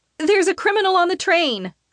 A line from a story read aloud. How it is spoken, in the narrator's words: I shout